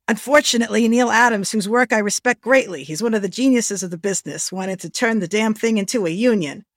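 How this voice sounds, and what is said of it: Put-on accent imitating Stan Lee. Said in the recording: “the actual words I found from Stan ... I'm going to stop doing my accent,”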